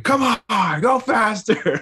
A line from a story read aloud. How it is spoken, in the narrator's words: he's yelling at them